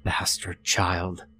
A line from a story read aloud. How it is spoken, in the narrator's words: muttered under her breath